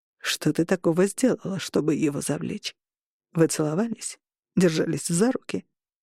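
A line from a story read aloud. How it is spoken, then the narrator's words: Restrained, slightly irritated. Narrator (Russian): Он говорил сдержанным тоном, но в нем проскакивало легкое раздражение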